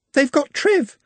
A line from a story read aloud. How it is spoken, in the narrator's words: she sobbed